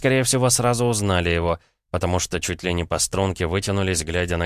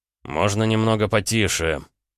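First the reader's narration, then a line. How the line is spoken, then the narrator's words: Growled. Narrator (Russian): рыкнул он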